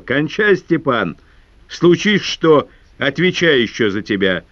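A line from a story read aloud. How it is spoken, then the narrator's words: Shouting. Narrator (Russian): Прожогин закричал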